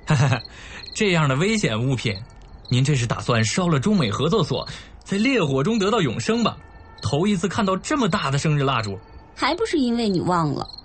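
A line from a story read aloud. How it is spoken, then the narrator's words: Laughing, teasing. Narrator (Chinese): 沈烈笑着揶揄他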